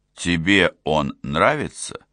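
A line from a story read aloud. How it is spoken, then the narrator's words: Plain. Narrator (Russian): спросил Фоллер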